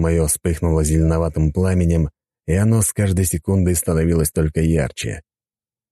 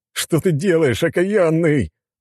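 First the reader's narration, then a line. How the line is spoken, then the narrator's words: Howling. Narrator (Russian): взвыл цесаревич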